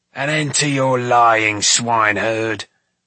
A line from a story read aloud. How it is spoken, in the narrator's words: Doreth growled